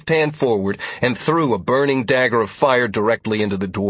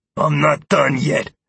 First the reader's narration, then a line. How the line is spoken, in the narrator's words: Mazter growled